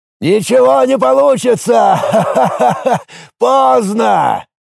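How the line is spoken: Shout. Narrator (Russian): крикнул Федор Семенович

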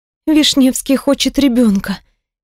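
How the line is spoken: Sad, over the phone. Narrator (Russian): печально произношу в трубку

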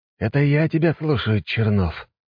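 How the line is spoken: Weary sigh. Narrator (Russian): устало вздохнул Василий Федорович

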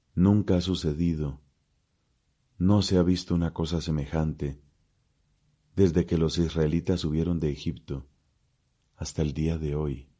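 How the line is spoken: Exclaiming. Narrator (Spanish): todos los que lo veían exclamaban

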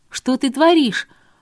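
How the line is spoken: Shocked shout. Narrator (Russian): в шоке выкрикнула я

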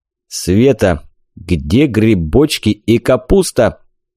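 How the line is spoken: Menacing bark. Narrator (Russian): Грозно рявкнул дядя Женя

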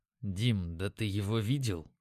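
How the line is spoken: Hushed voice. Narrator (Russian): сказал я, стараясь говорить тихо

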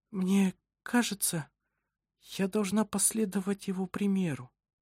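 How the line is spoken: Weak voice. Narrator (Russian): сказала она слабым голосом

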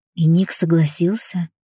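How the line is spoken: Quiet, resigned question. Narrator (Russian): тихо спросила я, заранее зная ответ

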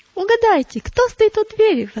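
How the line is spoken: Exclaimed. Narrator (Russian): воскликнула она

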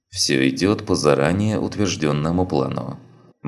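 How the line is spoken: Gloomy reply. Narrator (Russian): мрачно ответил Чапай

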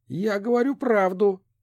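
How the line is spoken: Snapping retort. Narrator (Russian): огрызнулась Риана

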